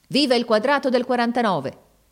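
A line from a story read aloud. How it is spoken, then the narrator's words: Shouted. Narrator (Italian): gridò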